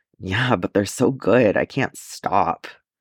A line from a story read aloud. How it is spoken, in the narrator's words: Grimacing, mutters